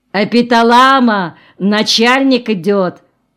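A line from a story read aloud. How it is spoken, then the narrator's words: Loud announcement. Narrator (Russian): громко сказал Валька Корзубин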